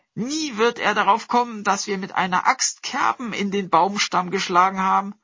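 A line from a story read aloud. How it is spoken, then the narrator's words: Sister calling out. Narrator (German): rief die Schwester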